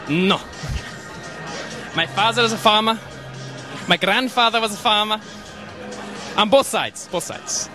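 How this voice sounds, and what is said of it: Strong European accent. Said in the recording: “With the crazy accent as well ... that gives you that accent ... Europe”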